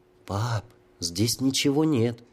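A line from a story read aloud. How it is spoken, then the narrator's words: Quiet. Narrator (Russian): тихонько заговорил Сергейка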